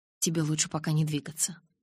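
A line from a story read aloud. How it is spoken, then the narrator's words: Soft. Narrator (Russian): мягко произнес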